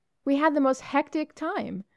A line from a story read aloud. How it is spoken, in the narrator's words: Muriel was exclaiming enthusiastically